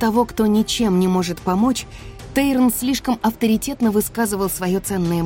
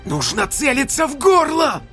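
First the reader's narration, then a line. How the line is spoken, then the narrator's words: Screaming. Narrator (Russian): завопил Орен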